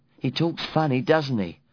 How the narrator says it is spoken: said this Devotchka, like, giggling

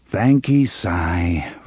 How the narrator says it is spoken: Roland said, and his sigh sounded like a sigh

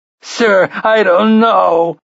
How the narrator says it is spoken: sobbed

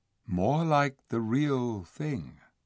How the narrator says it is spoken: said the Lord Diggory softly

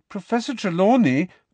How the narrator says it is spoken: began Parvati in a hurt and indignant voice

